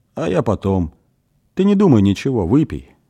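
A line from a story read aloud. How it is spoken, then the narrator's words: Calm father. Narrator (Russian): спокойно сказал отец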